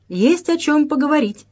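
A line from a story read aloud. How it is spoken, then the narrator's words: Cheerful reply. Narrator (Russian): весело отозвался Грязнов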